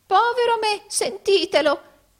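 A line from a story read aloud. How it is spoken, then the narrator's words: Exclaiming with forced laugh. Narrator (Italian): esclamò Arturo fingendo di ridere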